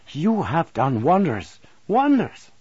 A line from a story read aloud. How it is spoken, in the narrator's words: he cried when he had heard the narrative